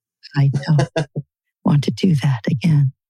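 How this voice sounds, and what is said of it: Calm public-radio announcer voice. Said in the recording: “doing my NPR voice”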